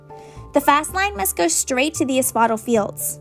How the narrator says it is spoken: said

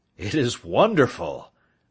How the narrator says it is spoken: I exclaimed

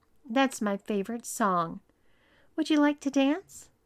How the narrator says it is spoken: Even though he wasn't thrilled about it, Tom turned to Matt and sweetly told him

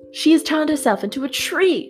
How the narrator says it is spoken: screamed the charlatan

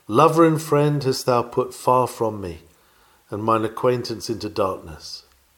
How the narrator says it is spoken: unhappy ones are doomed to sigh out

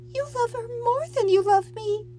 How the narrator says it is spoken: she whimpered

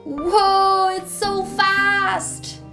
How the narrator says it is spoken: They shouted

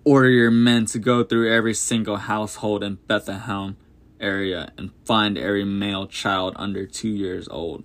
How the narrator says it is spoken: Herod spat

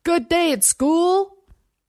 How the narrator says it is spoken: Over the rising whine of the engine and the vip, vip, vip of chopped air, he shouted

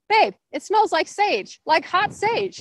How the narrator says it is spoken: I shouted ahead to Barry

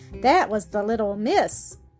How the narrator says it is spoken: Sebastian chuckled to himself

